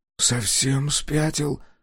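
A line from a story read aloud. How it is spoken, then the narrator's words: Whispering. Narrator (Russian): прошептал Коленки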